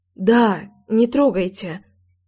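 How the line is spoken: Breathed out. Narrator (Russian): Выдохнула я

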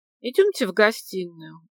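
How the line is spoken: Weary suggestion. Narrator (Russian): устало предложил Глеб Денисович

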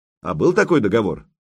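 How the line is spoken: Skeptical snort. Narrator (Russian): Добрыня хмыкнул

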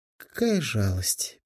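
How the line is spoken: Sad sigh. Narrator (Russian): печально вздохнула она

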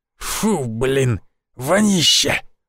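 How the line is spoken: Hoarse, indignant. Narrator (Russian): возмутился хриплый

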